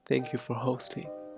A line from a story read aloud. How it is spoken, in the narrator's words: he said